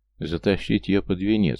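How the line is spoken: Snorting. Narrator (Russian): хмыкнул Дамир

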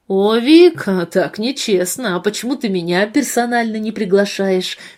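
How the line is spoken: Deep, mock-offended voice. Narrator (Russian): С наигранной обидой в голосе пробасил Андрей

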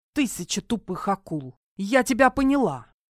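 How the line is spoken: Muttered through clenched teeth. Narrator (Russian): сквозь зубы произнесла

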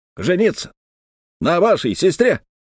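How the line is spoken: Shouting. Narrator (Russian): закричал Пьер Серван Мало

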